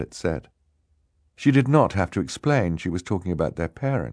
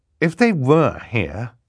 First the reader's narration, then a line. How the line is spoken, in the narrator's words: Klaus said, his voice rising as he got more and more upset